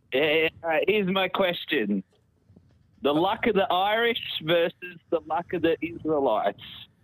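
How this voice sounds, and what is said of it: Australian accent. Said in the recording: “It's a fake Australian, is it? ... Sounds like a real accent. ... Is that a real Australian accent?”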